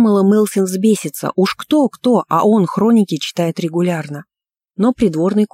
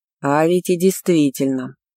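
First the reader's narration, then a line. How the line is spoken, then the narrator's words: Thoughtful drawl. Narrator (Russian): задумчиво протянул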